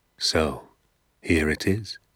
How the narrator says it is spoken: he said, and now suddenly his voice became soft and whispery and very private

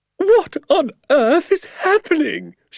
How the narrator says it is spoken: She shrieked

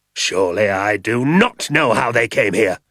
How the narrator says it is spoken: snapped Mr

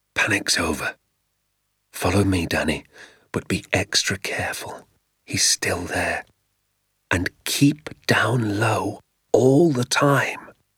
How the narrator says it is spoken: I heard my father whisper

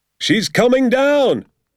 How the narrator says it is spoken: my father shouted

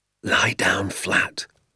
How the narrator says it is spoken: my father whispered

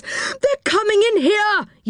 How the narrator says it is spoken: yelled Moonface

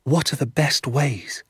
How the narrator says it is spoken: I asked

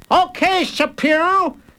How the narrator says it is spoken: he shouted

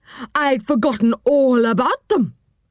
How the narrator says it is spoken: cried the old woman

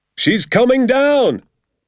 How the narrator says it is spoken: my father shouted

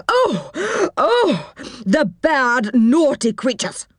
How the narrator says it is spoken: cried the old woman

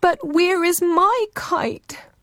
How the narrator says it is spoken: Ururangi cried

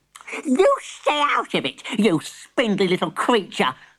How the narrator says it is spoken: snapped Granny

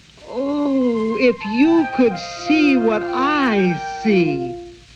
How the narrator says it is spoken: Molly sang out in a high, clear voice

